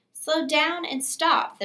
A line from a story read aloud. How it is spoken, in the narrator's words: the man called out